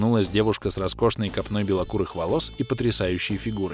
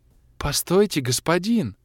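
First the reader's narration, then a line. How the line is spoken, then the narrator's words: Offended exclamation. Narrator (Russian): Обиженно воскликнула девушка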